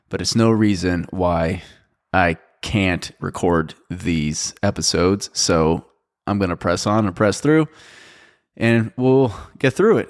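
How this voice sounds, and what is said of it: Raspy, sick-sounding voice. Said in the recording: “If I sound under the weather, that's because I, as a matter of fact, am under the weather. I'm a little bit sick. ... My voice is a little bit raspy, but mostly it's just a sore throat”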